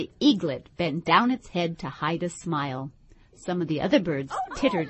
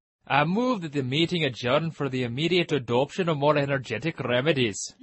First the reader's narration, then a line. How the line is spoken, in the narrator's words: said the dodo, solemnly